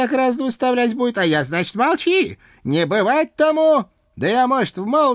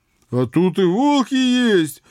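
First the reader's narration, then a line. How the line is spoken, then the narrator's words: Joyful, excited. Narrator (Russian): радостно подскочил Митяй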